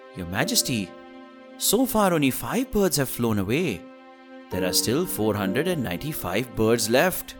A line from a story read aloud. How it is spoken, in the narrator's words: Birbal said calmly